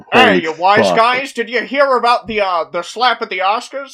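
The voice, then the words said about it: Three Stooges comedic character voices. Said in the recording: “my like Three Stooges impression because I can do all three”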